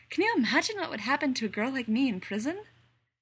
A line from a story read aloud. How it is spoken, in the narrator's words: She laughs nervously